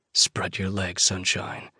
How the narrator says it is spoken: I rasp

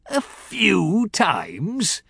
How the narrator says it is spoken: he laughed uproariously

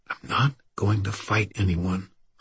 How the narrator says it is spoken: Irwin all but whispered

